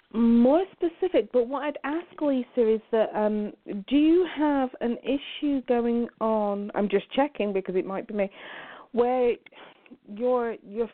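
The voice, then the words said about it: Strong English accent. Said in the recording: “Are you from Down Under, from the Australia? ... You had a strong accent. ... I thought maybe Australia or England.”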